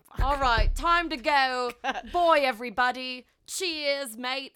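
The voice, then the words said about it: Put-on accent. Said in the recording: “that sounded really good in that accent”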